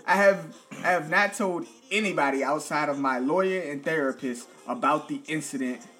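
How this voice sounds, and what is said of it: Southern American accent. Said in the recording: “Because you got that southern accent.”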